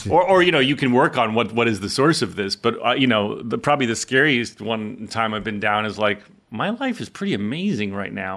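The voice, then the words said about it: North Jersey accent. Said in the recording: “I can hear Jersey... You have a real Jersey accent... It's very North Jersey”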